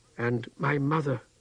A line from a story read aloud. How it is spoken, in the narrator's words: Tehano whispered